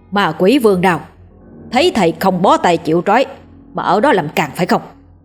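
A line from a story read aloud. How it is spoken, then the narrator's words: Angry shout. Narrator (Vietnamese): Ông thầy lùng quát lên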